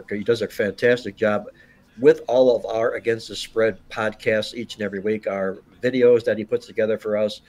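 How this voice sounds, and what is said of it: Strained, failing voice. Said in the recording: “I'm a little bit down under the weather here, losing my voice as we're talking.”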